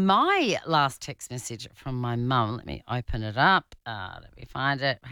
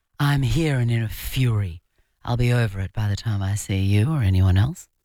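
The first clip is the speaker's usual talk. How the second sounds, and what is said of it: Impression of speaker's mother. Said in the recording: “I've got to do her voice.”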